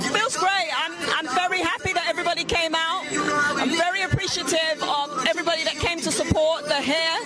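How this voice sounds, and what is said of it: Heavy British accent. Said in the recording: “speak in an interview with a heavy British accent.”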